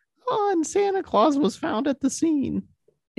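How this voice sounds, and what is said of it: Poor impression of co-host's voice. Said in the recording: “I'll mimic your voice ... Is that what my voice sounds like? ... I'm really bad at impressions. ... I just wanted to do a different voice.”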